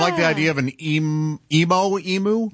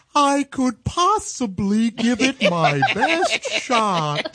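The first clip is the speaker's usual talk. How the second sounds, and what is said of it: Emo Phillips impression. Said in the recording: “Do you do an Emo Phillips impression? ... Josh has a great one. ... Isn't that how an emo would talk?”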